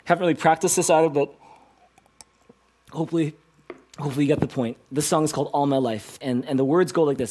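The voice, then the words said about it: Hoarse, worn-out voice. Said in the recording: “my voice is kind of shot.”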